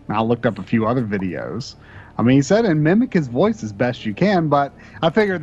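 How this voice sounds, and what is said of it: Mild Southern American accent. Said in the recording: “I've definitely got a Southern accent, but it kind of fluctuates in intensity kind of depending on who I'm talking to. Like right now, it's probably not very intense”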